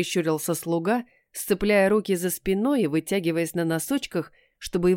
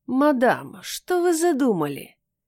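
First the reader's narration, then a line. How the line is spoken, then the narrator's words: Nasal whine from behind. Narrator (Russian): Позади загнусавил уже ненавистный голос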